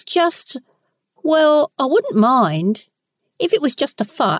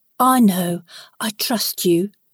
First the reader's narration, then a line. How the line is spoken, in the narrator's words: whispered